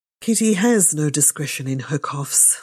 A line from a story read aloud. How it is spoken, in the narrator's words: said her father